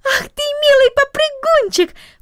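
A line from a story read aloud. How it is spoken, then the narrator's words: Exclamation. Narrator (Russian): воскликнула она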